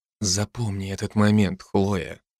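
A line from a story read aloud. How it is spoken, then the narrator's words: Whisper. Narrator (Russian): прошептал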